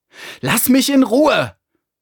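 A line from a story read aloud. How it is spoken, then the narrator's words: Shouted. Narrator (German): schrie er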